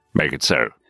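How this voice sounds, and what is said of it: Imitates another person's voice. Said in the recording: “your Patrick Stewart impression”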